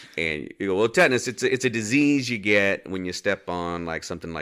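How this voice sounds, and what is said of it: Usual voice. Nothing is said of it.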